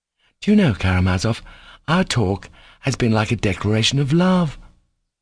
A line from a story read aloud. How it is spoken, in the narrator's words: said Kolya in a bashful and melting voice